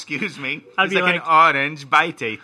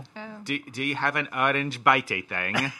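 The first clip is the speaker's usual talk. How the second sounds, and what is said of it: Imitated thick British accent. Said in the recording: “The guy had a thick British accent, too.”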